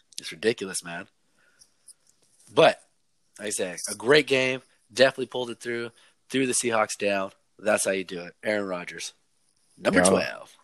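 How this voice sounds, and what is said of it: Hoarse, strained voice. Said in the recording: “lost my voice. You guys don't right now how I sound really horrible because I lost my voice from yelling”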